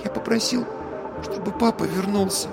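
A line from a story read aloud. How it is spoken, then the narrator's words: Whispered. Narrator (Russian): он прошептал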